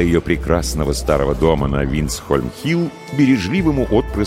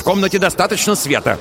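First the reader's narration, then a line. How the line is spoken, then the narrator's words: Irritated shout. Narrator (Russian): раздраженно крикнул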